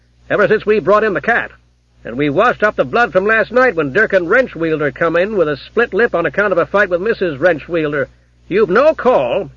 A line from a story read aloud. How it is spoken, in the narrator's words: added the copper testily